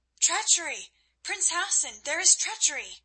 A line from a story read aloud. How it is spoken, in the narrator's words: Then understanding came to her, and she cried aloud